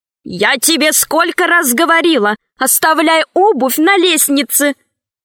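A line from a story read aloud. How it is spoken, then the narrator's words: Shouted. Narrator (Russian): крикнула жена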